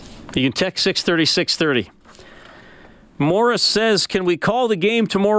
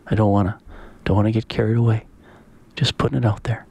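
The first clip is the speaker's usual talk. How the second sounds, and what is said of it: Quiet, hushed voice. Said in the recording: “I'm just going to say it in a quiet. Ooh. Just say it in a quiet voice.”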